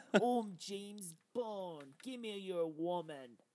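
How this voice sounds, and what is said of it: English-accent James Bond impression. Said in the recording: “I'm doing an English accent.”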